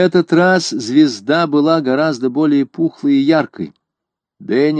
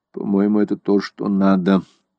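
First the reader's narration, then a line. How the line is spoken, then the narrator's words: Muttered. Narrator (Russian): пробормотал Деннисон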